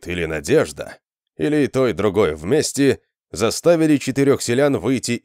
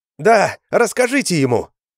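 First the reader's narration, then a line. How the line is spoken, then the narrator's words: Shouted. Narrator (Russian): крикнула Шилка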